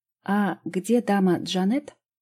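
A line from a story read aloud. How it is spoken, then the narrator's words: Plain. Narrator (Russian): спросил кто-то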